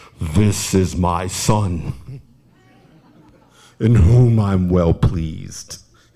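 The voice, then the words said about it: Very deep baritone voice. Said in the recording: “I imagined when I read Matthew the voice of James Earl Jones ... that really deep baritone”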